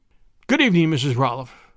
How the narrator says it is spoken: stammered

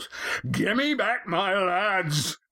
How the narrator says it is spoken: ferocity in this bellow

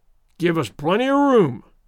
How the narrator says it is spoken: roared Redmond

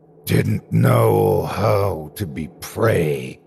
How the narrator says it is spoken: the thing hissed

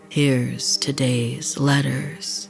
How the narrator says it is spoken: Raoul said in a deep, demonic voice

